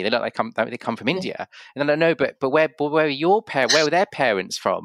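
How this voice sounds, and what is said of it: English accent. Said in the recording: “I've got an English accent”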